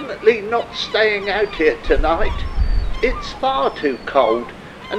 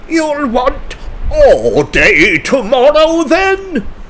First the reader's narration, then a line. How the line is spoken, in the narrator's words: thundered Sir Reginald